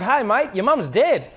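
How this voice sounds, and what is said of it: Put-on upbeat Australian accent. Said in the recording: “Australian accent is that you always sound happy ... it always goes up and it's like really exciting”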